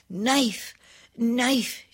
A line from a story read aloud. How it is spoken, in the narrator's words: she panted